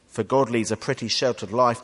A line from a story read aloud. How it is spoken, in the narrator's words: they said